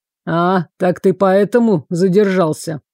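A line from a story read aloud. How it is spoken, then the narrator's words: Grumbled. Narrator (Russian): проворчал Гордвейк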